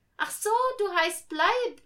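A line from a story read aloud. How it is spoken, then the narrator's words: Laughing. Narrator (German): lachte Millie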